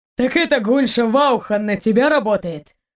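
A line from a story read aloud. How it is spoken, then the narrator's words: Snort. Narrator (Russian): фыркнул Торн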